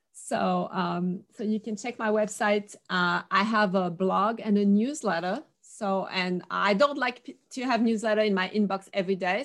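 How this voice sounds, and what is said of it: Noticeable accent, hard to understand. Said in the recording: “my accent, people don't always understand”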